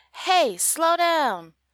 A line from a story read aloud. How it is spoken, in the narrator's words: the angry man yells at me